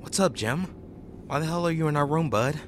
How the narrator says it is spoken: calmly said to him

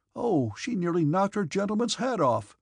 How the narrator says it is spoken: cried the red-faced humorist

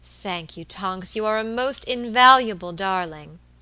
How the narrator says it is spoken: exclaimed Mrs

